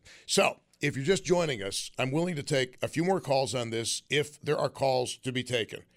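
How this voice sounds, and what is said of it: Hoarse, raspy sandpaper voice. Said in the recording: “sorry about my voice... My voice is a mess from a massive staph infection of my sinuses... I sound like sandpaper”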